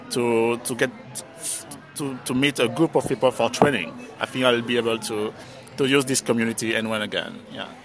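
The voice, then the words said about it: French accent. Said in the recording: “Always love hearing a French accent too.”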